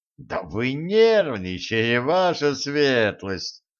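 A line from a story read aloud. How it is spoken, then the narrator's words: Mocking surprise. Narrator (Russian): насмешливо удивился Харт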